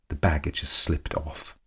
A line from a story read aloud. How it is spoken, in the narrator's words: muttered the Countess